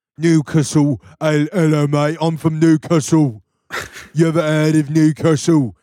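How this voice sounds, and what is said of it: Put-on British accent, rapper-like. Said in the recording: “you sound like a fucking British rapper.”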